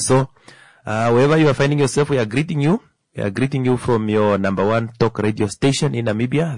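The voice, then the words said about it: Hoarse, cracking voice. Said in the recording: “Very sorry for my voice. It's a bit cracking”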